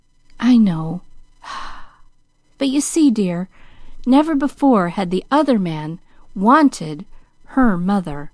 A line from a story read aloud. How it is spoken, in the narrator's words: sighed Pollyanna, her face puckered into an anxious frown